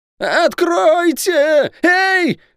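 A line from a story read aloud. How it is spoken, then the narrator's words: Louder yelling. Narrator (Russian): пуще прежнего заорал Лук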